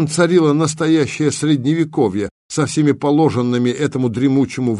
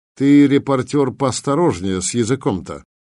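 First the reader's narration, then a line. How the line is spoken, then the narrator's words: Mock-gentle request. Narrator (Russian): Эдак ласково попросил его мичман Тагурка, артиллерийский офицер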